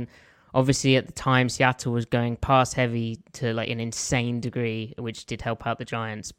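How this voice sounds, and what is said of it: Southern English accent. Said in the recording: “an English accent, no, I am not a Geordie. I'm from the south of England.”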